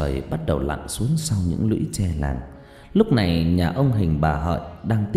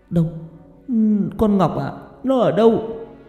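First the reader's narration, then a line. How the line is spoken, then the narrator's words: Stammering old woman. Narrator (Vietnamese): Bà Dung vẫn nói bằng cái giọng lắp bắp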